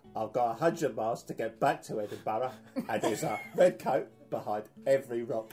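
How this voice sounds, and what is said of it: Good Michael Caine impression. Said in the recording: “It's Michael Caine. ... That was a good impression.”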